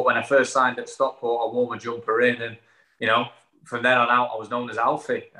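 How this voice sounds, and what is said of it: Stockport English accent. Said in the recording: “you've still got your Stockport accent and you haven't got the Jan Mulby effect where you've got sort of a little bit of Australian in there. It's fully still Stockport”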